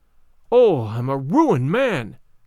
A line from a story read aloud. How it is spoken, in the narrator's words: cried he